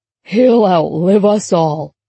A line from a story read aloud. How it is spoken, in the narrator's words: Percy declared with a hearty chuckle